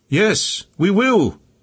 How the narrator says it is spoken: they shouted their reply

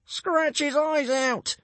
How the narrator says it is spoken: screeched Brightclaw

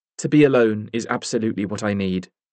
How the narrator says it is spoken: said, her voice firm

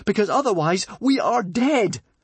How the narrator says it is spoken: gasped Fishlegs

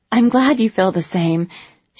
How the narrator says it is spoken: she said breathlessly

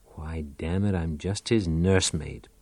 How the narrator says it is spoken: Pal muttered

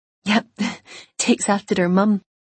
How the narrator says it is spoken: Isla laughed

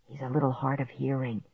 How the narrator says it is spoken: Dad whispered to me

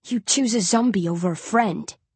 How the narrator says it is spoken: Coley snarls

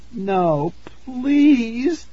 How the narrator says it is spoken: Tara begged

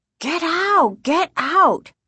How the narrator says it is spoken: Casey screamed

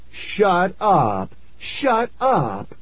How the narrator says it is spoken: Laughing

